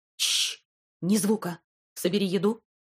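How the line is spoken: Calm, clear speech. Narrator (Russian): Он говорил спокойно и четко

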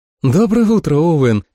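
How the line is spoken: Cheerful greeting. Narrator (Russian): весело поздоровалась Джулия

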